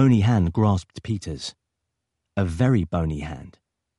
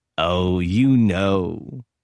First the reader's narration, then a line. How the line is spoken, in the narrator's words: was the drawled reply